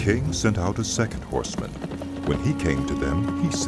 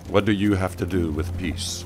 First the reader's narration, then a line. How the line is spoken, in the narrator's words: Jehu replied